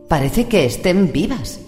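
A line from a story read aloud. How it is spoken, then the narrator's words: Exclamation. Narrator (Spanish): exclamó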